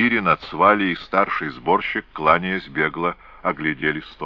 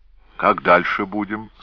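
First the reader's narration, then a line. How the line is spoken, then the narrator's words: Plain. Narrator (Russian): спросил сборщик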